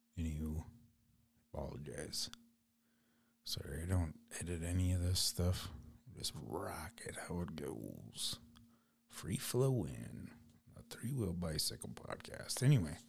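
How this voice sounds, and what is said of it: Raspy voice. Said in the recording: “my voice is kind of raspy.”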